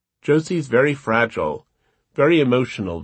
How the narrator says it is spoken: Vanessa said

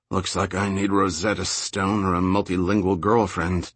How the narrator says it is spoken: Jack muttered

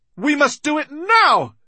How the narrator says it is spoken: she cried

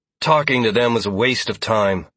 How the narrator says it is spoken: Sierra said in a frustrated tone

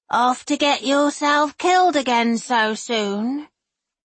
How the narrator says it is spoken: The familiar rasp

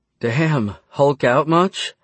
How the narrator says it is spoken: Tessa giggled

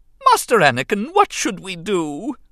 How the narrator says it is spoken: C-3PO wailed in dismay

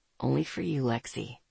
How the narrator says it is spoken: he said softly

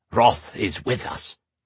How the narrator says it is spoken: the summoner declared in a raspy voice

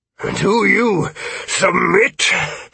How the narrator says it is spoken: The Bond slurred through a cracked lip

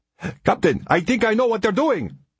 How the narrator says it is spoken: Ari shouted

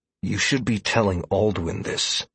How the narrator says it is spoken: I said through gritted teeth

